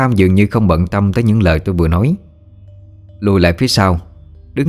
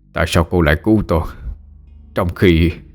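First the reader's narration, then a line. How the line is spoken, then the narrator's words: Shaken, panting. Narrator (Vietnamese): Lão Tam sắc mặt biến đổi, thở hổn hển nói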